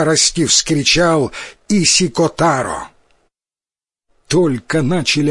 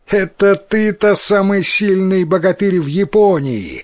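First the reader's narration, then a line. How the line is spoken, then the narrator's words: Laughing. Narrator (Russian): засмеялся Тикаратаро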